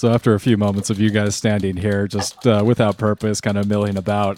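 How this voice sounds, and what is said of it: Usual voice. Nothing is said of it.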